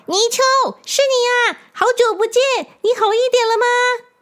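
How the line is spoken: Vicious, menacing. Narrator (Chinese): 水怪恶狠狠的说

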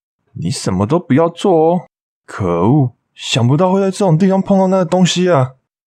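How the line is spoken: Sighing, muttering to himself. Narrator (Chinese): 大叔一面叹气，一面自言自语

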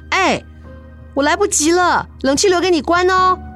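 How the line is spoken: Hurried shout. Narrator (Chinese): 急着出门的自己就对着这个房子的深处大喊

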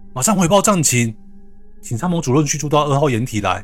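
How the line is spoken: Loud. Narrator (Chinese): 查哨官高声的对着驾驶员说

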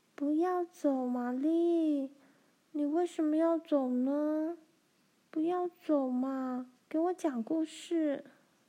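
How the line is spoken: Earnest pleading. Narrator (Chinese): 葛丽丝苦苦哀求

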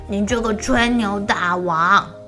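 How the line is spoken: Angry shouting. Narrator (Chinese): 提欧生气了，大吼大叫

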